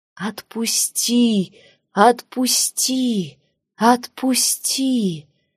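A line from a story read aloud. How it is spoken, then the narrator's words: Moaning. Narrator (Russian): стонала Цитра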